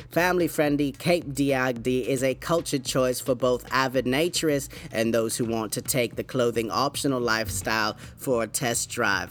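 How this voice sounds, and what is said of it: Put-on British accent. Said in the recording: “that little British accent”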